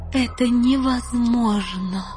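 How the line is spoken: Queen's moan. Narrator (Russian): простонала королева Танитриэль

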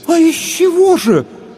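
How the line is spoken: Puzzled women exclaiming together. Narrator (Russian): в один голос воскликнули озадаченные женщины

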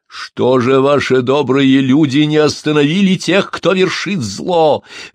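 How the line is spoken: Shouted out. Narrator (Russian): выкрикнул рыжий

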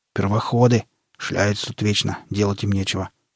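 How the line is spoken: Grumbling under breath. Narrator (Russian): проворчал себе под нос Барбарис

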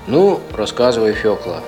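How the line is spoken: Plain. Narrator (Russian): сказал поп

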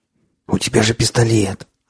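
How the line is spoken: Fervent whisper. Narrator (Russian): жарко зашептал пленник

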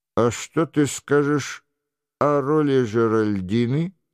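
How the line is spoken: Plain. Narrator (Russian): спросил Лебордет

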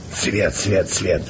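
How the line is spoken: Wheezing. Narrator (Russian): просипел Емельян

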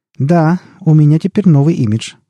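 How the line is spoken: Laughing. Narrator (Russian): рассмеялся он

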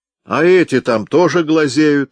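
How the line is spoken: Loud shout. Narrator (Russian): громко крикнул Ка

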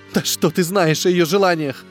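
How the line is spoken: Sobbing. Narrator (Russian): всхлипнула Вера Павловна

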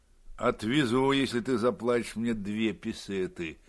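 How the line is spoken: Captain grumbling. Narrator (Russian): Капитан проворчал

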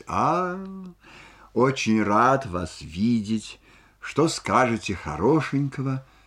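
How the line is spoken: Embarrassed, forced-smile greeting. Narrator (Russian): Рябовский, по-видимому, очень смущенный, как бы удивился ее приходу, сказал, натянуто улыбаясь

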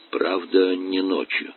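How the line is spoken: Quiet addition. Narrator (Russian): тихо добавил

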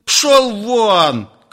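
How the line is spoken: Angry shout. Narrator (Russian): крикнул Шмахин багровея

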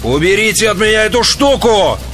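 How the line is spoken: Screaming. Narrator (Russian): завопил Алекс

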